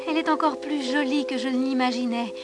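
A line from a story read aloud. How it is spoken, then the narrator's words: Soldier murmuring. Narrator (French): murmura le soldat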